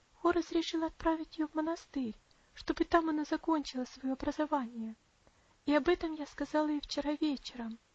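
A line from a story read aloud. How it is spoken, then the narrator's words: Sad. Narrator (Russian): печально добавила она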